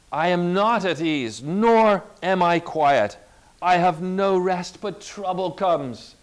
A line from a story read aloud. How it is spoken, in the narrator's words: cried Job